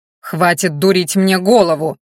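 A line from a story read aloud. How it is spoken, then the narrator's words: Growled. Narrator (Russian): прорычал Ранхаш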